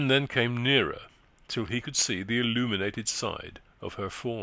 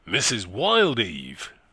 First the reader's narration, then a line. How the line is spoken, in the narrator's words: he exclaimed, starting